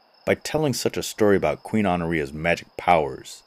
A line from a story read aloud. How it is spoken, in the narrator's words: he thundered